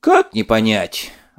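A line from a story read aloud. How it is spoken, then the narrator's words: Sighing. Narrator (Russian): вздохнул банник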